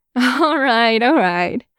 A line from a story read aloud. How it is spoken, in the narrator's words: Wei Wuxian said, his voice full of mirth